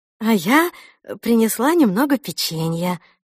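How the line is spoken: Joyful reply. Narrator (Russian): радостно отозвалась Мот

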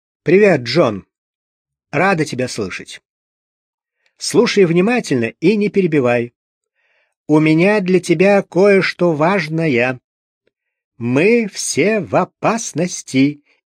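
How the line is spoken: Sudden nervous bark. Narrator (Russian): видимо, не совладав с расшалившимися нервами, вдруг буквально рявкнула, явно не заботясь о том, поймет ли ее собеседник

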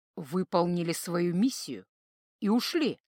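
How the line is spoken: Mutter. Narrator (Russian): пробормотал воин

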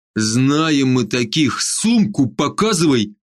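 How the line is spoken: Growled. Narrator (Russian): зарычал Северский

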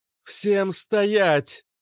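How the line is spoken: Booming amplified voice. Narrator (Russian): прогремел ее голос, усиленный роботом

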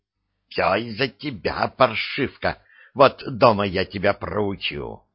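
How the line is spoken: Hissing, quieted. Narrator (Russian): стихла, прошипев через окно кареты

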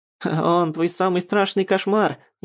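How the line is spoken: Snide, mocking. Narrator (Russian): ехидно скалится Мавка

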